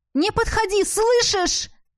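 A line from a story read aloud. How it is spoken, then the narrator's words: Frantic shout. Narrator (Russian): закричала я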